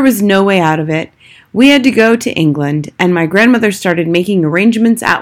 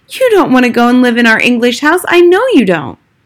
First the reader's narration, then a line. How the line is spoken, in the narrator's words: I cried